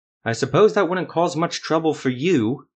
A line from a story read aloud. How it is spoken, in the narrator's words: Ethramel spat without thinking